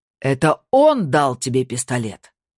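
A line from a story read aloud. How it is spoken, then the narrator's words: Shout. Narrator (Russian): крикнул Александр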